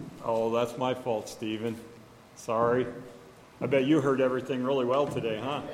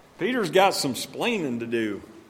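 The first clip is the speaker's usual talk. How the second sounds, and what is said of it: Put-on southern accent. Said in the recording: “I pulled a little southern accent into it this morning.”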